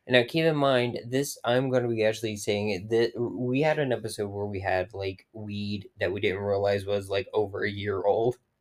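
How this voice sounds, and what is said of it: Hoarse, strained voice. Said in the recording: “apologize for my voice ... my voice is shot from all the yelling.”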